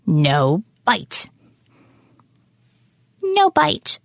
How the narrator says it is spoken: squeaked, hanging from her mouth

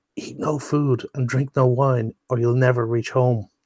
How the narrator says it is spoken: a man whispered

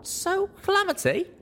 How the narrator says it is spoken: I piped up

